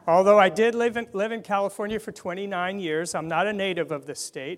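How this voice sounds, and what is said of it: Foreign accent. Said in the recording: “my funny accent, that I come from a foreign land”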